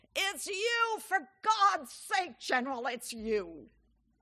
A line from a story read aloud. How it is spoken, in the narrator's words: His assistant shouts